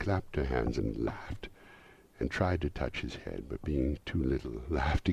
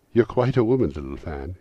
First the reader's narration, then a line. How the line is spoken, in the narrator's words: exclaimed the boy